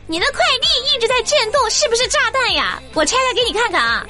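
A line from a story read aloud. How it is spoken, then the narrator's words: Shouting while running. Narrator (Chinese): 快递小哥一边跑一边喊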